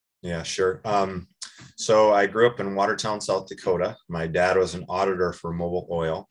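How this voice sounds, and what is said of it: Understated South Dakota accent. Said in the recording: “Said in very South Dakota, very understated way ... oh, yes, you do”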